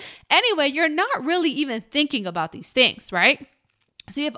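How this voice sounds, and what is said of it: Usual voice. Nothing is said of it.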